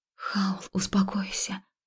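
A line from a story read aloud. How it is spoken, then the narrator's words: Soft whisper. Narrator (Russian): тихо шепнула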